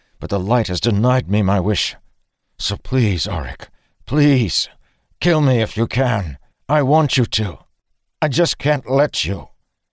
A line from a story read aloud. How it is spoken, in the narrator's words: Dalen said through clenched teeth